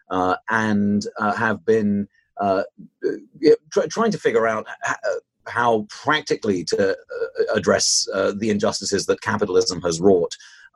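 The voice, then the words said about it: British accent. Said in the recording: “I started in in the United Kingdom, as you might be able to tell from my accent”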